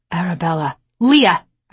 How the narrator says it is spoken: snapped

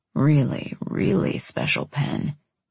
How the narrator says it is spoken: he murmured

